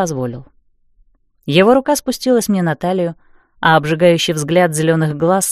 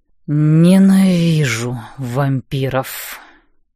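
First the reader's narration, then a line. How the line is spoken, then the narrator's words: Moan. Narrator (Russian): Непонятно к чему простонал он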